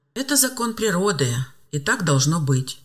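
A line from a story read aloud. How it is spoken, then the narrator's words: Calm objection. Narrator (Russian): спокойно возразил мужчина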